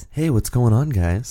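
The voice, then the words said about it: Smooth voice. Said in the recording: “doing your smooth voice ... doing my smooth voice”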